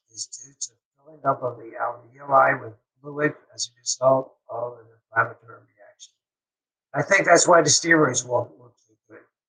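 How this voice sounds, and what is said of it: Strained, fading voice. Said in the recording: “I'm losing my voice today because I had a busy day.”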